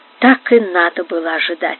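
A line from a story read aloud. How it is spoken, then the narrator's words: Quiet. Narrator (Russian): сказал он тихо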